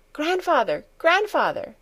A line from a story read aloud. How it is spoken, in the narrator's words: she cried, beside herself with excitement